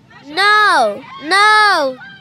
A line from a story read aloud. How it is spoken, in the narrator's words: shouted my sister